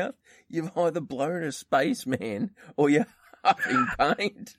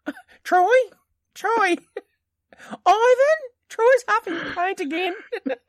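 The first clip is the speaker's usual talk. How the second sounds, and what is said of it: Imitates another person's voice. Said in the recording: “your actually impersonation of my mother is really not very close”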